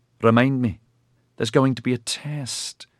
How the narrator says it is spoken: Ediard said wearily

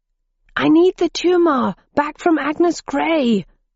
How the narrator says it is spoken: yelled Roger

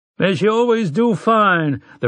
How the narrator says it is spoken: the rancher cried

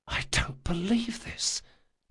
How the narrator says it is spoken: he whispered

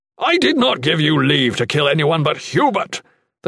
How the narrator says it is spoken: the Shadan yelled

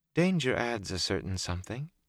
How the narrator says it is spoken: she said softly

